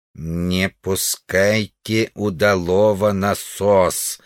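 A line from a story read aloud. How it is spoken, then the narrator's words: Distant strange alien-accented voice. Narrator (Russian): ответил странного тембра далекий голос с инопланетным акцентом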